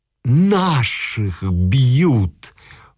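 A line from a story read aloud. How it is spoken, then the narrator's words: Crowd howling. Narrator (Russian): взвыло окуровское мещанство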